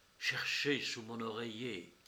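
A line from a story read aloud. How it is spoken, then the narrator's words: Low, breathless voice. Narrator (French): respirant à peine, et reprit à voix basse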